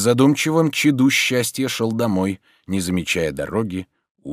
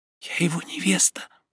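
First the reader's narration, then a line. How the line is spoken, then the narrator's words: Whisper. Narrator (Russian): прошептала она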